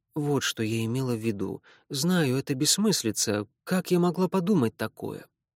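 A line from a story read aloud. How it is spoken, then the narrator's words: Embarrassed mumble. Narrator (Russian): она тут же извинилась и, покраснев, пробормотала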